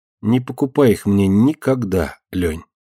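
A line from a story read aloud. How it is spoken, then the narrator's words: Sad. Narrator (Russian): грустно сказала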